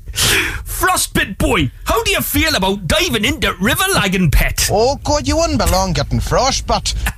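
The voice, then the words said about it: Put-on Geordie accent. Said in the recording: “it's your Geordie accent”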